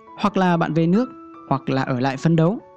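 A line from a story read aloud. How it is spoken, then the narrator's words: Cold curt remark. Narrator (Vietnamese): buông một câu lạnh lùng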